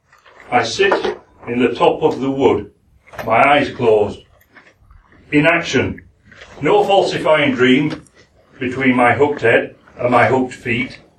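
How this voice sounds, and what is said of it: Yorkshire accent. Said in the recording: “I'm going to do it in my Yorkshire accent.”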